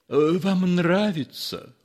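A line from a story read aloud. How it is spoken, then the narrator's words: Timid question. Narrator (Russian): робко спросил Ипполит Матвеевич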